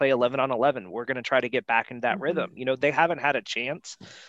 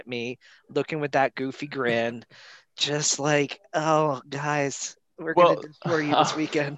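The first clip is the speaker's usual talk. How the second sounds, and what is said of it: Mocking impression of a co-host. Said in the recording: “your Charles impression ... it's like several levels of offensive to Charles”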